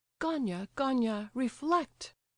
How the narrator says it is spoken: cried his mother hurriedly

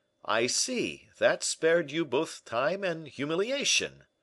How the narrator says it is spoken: cried D'Artagnan

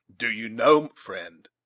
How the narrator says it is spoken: asked the scout gravely, and perhaps with a little of the pride of conscious deserving in his manner

